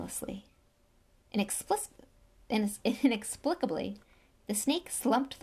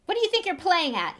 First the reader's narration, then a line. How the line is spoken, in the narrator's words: shouted